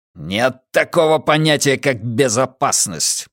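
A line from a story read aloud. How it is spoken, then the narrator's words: Growled. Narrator (Russian): прорычал Каз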